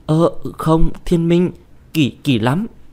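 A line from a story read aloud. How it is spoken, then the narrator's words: Flustered stammering. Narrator (Vietnamese): bà Diệp đỏ mặt đỏ tai, choáng váng sâm sẩy, miệng lắp bắp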